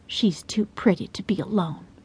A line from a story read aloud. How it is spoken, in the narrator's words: Hazel in a conspiratorial tone added